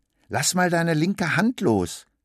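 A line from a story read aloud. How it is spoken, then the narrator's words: Calling out. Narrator (German): Sie ruft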